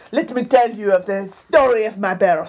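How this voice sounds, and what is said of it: Put-on affected accent. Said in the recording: “What is that accent?”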